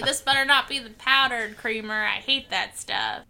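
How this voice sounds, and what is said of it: Tommy Lee Jones impression. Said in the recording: “your Tommy Lee Jones impression?”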